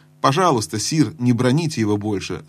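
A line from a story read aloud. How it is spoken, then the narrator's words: Plain. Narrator (Russian): сказал лорд Дарин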